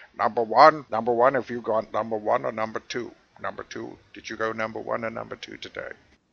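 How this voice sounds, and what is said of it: Jean-Luc Picard impression. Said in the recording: “that imitation ... there's not many Jean-Luc Picard imitators in the world ... There is a gigantic audience for that impression”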